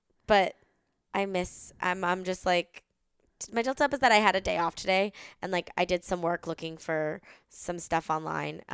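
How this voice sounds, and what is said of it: Tired-sounding voice. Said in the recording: “As you can hear from my voice, I am a tired girl ... I'm probably really dehydrated.”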